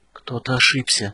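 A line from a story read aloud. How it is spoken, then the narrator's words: Whisper. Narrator (Russian): шептали его губы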